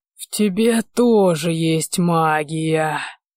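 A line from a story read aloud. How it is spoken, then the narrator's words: Creaky rasp. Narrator (Russian): Проскрипел он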